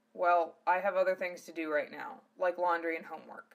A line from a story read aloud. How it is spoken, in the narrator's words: he said dryly